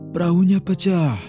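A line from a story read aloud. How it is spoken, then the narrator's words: Shouted. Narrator (Indonesian): teriak Lau Chen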